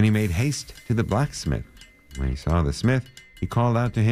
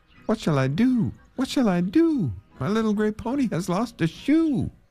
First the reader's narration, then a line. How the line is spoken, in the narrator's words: he cried again